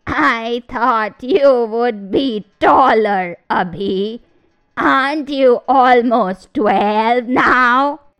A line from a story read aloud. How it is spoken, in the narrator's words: said the creature in a raspy voice